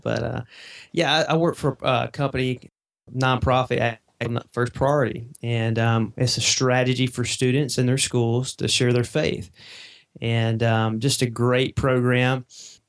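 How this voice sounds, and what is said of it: Southern US accent. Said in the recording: “I'm down here in Mississippi, and so you may can tell from my accent a little bit ... just a little ... Yeah, down in the South.”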